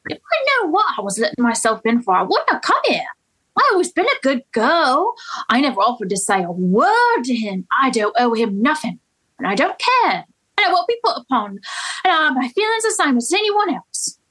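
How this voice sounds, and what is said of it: Convincing put-on accent. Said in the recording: “accent was so good”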